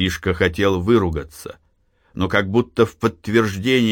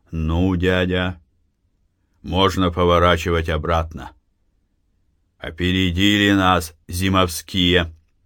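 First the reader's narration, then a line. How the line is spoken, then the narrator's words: Gloomy speech. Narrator (Russian): мрачно проговорил Матвей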